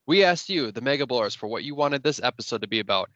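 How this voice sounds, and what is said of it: Congested, stuffed-up voice. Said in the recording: “You sound a little stuffed up. ... I think I picked up a little cold.”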